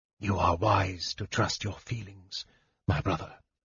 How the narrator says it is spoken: Raistlin said softly

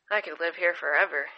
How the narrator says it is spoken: Ajnan said

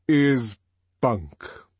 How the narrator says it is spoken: he repeated slowly

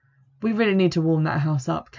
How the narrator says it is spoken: Campion sighs

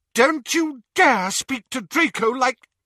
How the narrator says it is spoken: said Narcissa furiously

